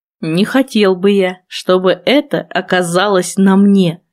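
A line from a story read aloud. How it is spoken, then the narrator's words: Wry snort. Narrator (Russian): хмыкнул Валентайн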